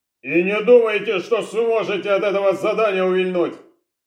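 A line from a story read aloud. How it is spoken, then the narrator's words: Barked after someone. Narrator (Russian): рявкнул им в спину Орлов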